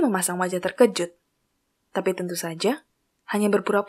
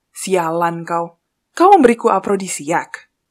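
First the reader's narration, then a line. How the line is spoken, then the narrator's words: Angry exclamation. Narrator (Indonesian): Thomas kembali berseru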